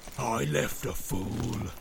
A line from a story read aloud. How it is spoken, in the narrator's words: snarled Grishnákh